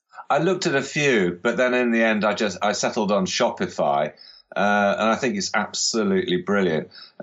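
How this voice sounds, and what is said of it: English West Country Dorset accent. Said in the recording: “for those of you who don't know where Dorset is in the UK, as you can probably tell from ... accent”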